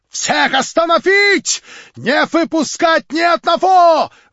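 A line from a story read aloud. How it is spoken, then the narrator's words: Yelling. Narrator (Russian): вопил Лемке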